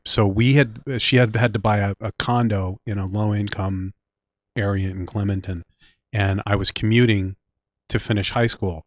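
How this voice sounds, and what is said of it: Philadelphia accent. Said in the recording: “My Philly accent is really showing now.”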